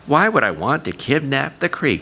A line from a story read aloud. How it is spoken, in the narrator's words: he asked